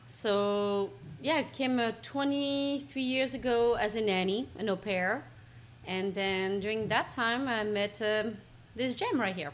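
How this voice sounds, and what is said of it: French accent. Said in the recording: “she has a cute little accent ... From France”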